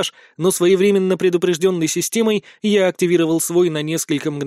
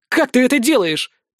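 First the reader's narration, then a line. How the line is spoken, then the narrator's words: Shout. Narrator (Russian): крикнула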